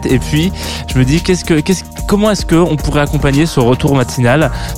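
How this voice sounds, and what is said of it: Slight English accent in French. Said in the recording (French): “mon accent anglais qui lui par contre n'a pas changé, il est toujours là ... un petit, petit accent anglais euh, sympathique”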